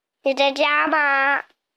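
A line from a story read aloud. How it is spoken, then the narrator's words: Shout from outside. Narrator (Chinese): 有人在门外喊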